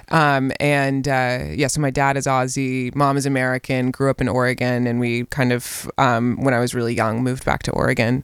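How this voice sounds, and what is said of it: American-influenced accent. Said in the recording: “you can tell, obviously, by your accent that you've been in America”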